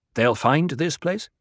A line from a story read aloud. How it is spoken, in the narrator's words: he asked